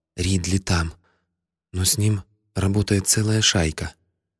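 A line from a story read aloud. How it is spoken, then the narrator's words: Frightened whisper. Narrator (Russian): девка поняла, что я сверну ей шею, если она что-нибудь выкинет, и прошептала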